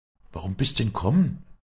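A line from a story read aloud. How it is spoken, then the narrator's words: Stammering. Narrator (German): stammelte sie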